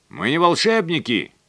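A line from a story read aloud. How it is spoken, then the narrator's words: Shouting chief engineer. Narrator (Russian): крикнул старший механик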